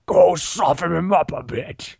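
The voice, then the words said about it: Poor imitation of General Grievous. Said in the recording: “terrible Grievous impression”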